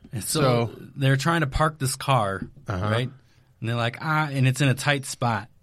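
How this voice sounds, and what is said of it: Usual voice. Nothing is said of it.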